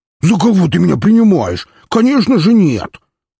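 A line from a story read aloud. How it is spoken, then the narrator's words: Attempted indignant squeal. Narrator (Russian): Он попытался возмущенно взвизгнуть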